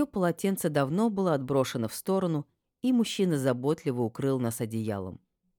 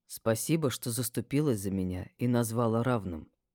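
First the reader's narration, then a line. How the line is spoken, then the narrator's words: Quiet. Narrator (Russian): тихо проговорил он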